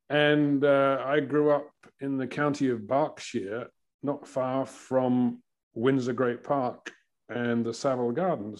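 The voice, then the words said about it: English accent. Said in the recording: “as you can probably tell from my accent, I'm originally from England in the United Kingdom”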